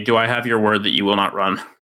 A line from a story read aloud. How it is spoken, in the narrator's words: sigh and say